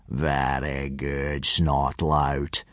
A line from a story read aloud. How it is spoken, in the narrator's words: purred Gobber the Belch